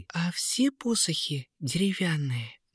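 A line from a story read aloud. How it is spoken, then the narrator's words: Soft question. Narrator (Russian): негромко спросила Диана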